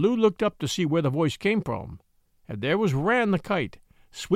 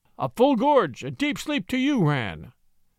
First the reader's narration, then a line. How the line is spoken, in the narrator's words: cried Bagheera